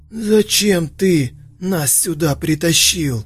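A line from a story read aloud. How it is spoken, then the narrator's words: Shouting turning hoarse. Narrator (Russian): Закричал Ророк, переходя на хрип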